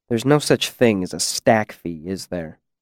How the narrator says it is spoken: I asked quietly

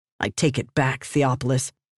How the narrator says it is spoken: she spat

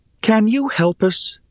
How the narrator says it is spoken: pleaded Rhea

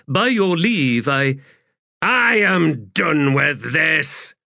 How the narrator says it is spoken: Blistig shouted

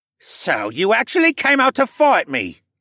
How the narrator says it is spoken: Cad sneered

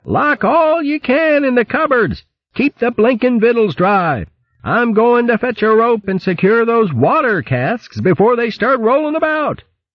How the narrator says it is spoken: The sea cook staggered inside, yelling to his assistant

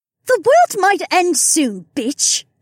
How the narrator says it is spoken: Becca snapped

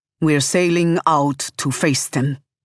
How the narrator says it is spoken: he says grimly

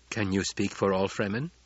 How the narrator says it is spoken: Jessica asked

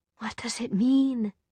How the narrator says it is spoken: She whispered

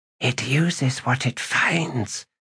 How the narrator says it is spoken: Sin whispered

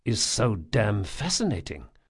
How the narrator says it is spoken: Locke muttered to himself in Vajran

